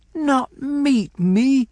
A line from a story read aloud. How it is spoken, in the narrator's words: I cried